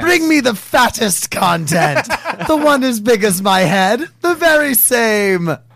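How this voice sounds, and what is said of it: Put-on British accent. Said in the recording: “was my accent decent? Because it was pretty shit ... It was pretty solid. ... It sounded like a solid British accent.”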